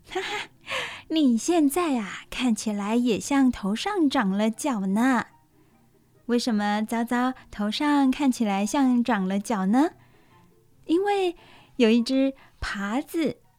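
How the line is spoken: Laughing. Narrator (Chinese): 乳牛妈妈忍不住大笑，她说

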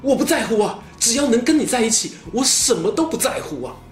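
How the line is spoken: Flustered, loud. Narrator (Chinese): 吕布慌忙地 大声说

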